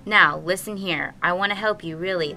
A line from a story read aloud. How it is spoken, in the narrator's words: the captain said